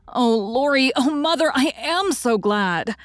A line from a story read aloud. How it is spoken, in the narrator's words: She did not weep again, but laughed hysterically and trembled